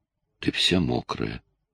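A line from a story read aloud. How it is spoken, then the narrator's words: Dreamy velvety drawl. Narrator (Russian): бормотал он, словно во сне, все тем же бархатным тягучим голосом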